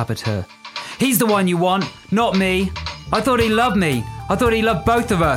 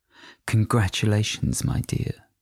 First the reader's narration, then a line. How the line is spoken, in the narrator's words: Patricia purred